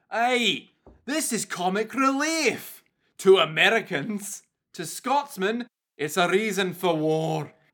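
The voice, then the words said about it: Put-on Scottish accent. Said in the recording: “putting on a bad Scottish accent”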